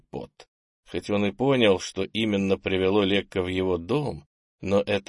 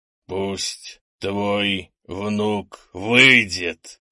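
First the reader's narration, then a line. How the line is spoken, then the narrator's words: Said through teeth. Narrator (Russian): процедил Лекка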